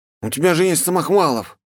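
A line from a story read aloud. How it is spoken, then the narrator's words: Smirking snort. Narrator (Russian): Я хмыкнул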